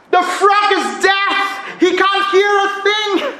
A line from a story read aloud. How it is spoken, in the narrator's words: someone shouted at the reporter